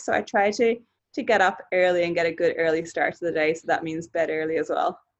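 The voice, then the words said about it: Slight Australian twang. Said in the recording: “That was a little bit of the Australian twang there. Early.”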